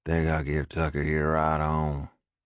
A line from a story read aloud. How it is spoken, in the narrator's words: Trick drawled